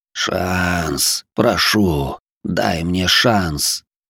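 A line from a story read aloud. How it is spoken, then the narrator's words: Pained plea through teeth. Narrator (Russian): Дрожащим от боли голосом процедил сквозь сжатые зубы маг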